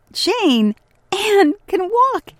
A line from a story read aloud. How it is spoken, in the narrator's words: called out